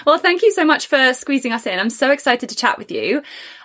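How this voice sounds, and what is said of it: English accent. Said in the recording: “the same accent ... English people”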